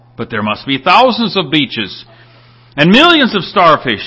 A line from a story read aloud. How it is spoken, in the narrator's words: exclaimed the young man